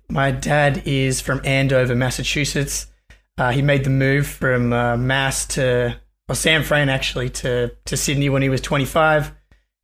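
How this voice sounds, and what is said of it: Australian accent. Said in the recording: “you're obviously Australian from your accent.”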